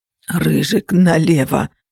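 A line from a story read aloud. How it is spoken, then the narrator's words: Groan. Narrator (Russian): простонал Феникс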